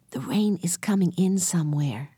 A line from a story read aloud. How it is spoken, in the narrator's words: said Jesse softly